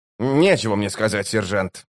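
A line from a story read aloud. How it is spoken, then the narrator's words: Sullen grumble. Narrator (Russian): угрюмо проворчал он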